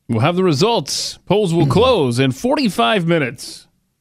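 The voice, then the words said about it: Over-the-top announcer voice. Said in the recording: “the announcer voice over the top kind of thing”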